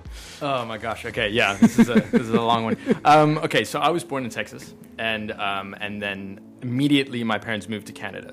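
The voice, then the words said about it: American accent. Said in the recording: “people are going to hear the American accent.”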